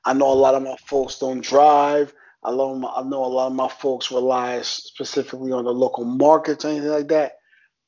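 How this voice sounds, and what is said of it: New York accent. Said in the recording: “I'm saying that as a New Yorker, if you can hear my accent”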